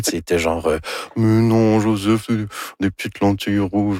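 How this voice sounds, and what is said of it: Imitates another person's voice. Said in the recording (French): “Ça, c'est mon imitation de Anne Dorval. ... Très réussi.”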